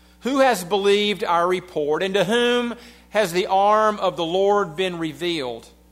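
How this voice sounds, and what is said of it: Southern American accent. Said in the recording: “you'll have to go with my southern accent”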